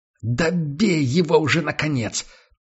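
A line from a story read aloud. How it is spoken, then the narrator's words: Hoarse wheeze. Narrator (Russian): прохрипел Мэтт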